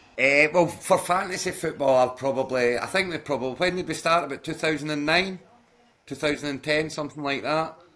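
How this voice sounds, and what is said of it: Glasgow Scottish accent. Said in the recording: “Edinburgh with a Glasgow accent”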